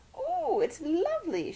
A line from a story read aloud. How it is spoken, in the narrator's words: she squeaked